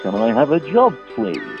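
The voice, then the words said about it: Put-on radio DJ voice. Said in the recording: “putting on a DJ voice.”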